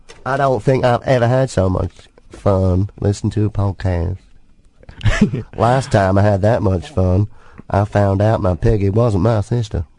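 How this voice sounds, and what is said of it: Put-on American Southern accent. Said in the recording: “That's my southern accent”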